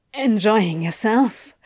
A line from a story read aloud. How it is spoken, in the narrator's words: Crowley managed to ask, panting with the effort of concentrating enough to form words